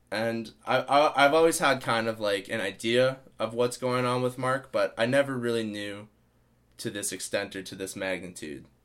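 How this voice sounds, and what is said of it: Tired, worn-down voice. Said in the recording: “as you can tell by my voice, I'm kind of wary or worn down”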